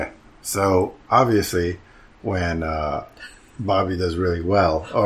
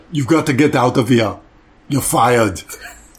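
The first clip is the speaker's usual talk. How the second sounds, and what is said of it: Arnold Schwarzenegger impression. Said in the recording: “your Arnold impersonation ... stop doing impersonations”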